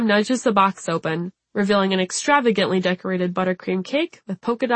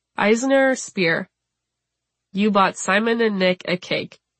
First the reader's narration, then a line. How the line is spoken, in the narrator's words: Bram asks slowly